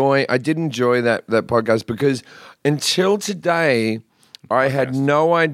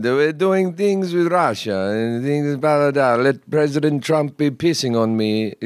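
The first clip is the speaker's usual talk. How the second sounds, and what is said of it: Put-on Russian accent. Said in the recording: “how amazing my Russian accent was.”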